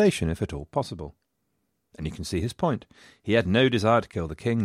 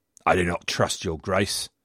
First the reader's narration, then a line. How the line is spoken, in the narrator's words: growled Worcester